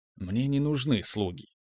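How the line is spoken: Quiet reply. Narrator (Russian): так же тихо ответил я

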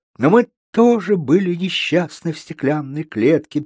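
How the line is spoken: Sad singing voice. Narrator (Russian): печально пропела Малиновка

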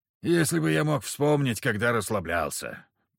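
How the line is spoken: Grumbled. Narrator (Russian): проворчал Илья Ильич

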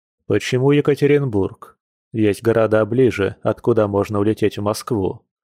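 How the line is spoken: Calm question. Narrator (Russian): Дима спокойно спросил

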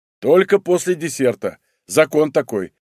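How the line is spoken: Laughing. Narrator (Russian): рассмеялся я

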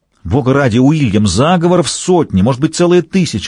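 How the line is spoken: Yell. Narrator (Russian): завопил Уолсингем

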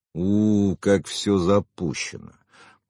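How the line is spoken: Inner groan. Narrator (Russian): мысленно простонал

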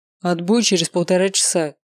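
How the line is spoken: Stern coach. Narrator (Russian): строго сказал тренер

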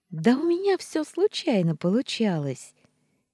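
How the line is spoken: Cheerful girl's reply. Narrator (Russian): Весело отозвалась девочка

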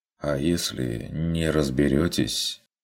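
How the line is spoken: Quiet. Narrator (Russian): уточнил Вилли тихо

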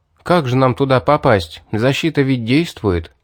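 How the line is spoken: Upset sigh. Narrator (Russian): С огорчением вздохнув, обратился я

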